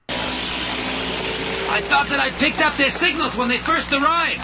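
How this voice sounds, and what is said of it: Slight New York accent. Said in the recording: “his voice has a bit of a New York accent”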